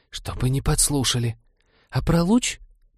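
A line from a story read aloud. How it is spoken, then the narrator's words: Conspiratorial hiss into patter. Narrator (Russian): Механик все же сбилась из заговорщицкого шипения на привычную скороговорку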